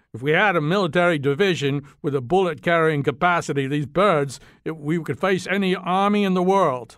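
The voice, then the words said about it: Poor put-on Australian accent. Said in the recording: “That wasn't a very good Australian accent.”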